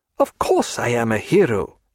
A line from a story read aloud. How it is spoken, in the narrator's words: he said, laughing very cheerfully